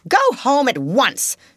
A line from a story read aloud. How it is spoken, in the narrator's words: she commanded indignantly